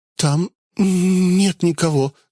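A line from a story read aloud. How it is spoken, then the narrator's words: Woman's trembling voice. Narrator (Russian): дрогнувшим голосом произнесла женщина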